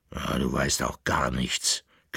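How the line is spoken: Dog's growl. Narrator (German): knurrte der Bauernhund

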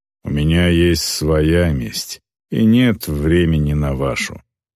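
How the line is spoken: Grumbling orc woman. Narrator (Russian): проворчала орка

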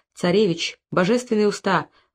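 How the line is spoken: Exclaimed. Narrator (Russian): воскликнула Энана

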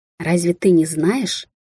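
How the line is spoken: Bloodthirsty purring old woman. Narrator (Russian): Промурлыкала седая женщина, и ее единственный глаз горел жаждой крови

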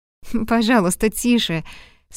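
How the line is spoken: Laughing request. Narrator (Russian): смеясь попросила она

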